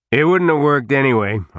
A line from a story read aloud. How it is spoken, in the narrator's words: Harley was saying in a loud voice